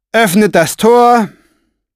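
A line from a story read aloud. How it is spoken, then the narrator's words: Pointedly bored call. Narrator (German): rief mit betont gelangweilter Stimme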